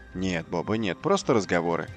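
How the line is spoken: Plain. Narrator (Russian): ответил Джо

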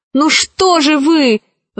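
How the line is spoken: Exclaimed. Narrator (Russian): воскликнула Кора

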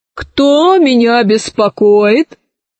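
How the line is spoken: Menacing voice. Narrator (Russian): спросил лже-директор грозным голосом

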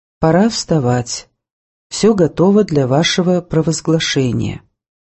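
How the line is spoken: Completely calm voice. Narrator (Russian): Алексеем Орловым … сказал совершенно спокойным голосом

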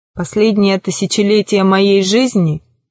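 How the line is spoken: Low humming voice. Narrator (Russian): говорил он своим низким гудящим голосом

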